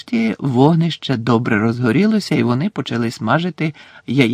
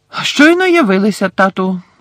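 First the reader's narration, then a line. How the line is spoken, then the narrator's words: Loud announcement. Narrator (Ukrainian): голосно повідомив Персі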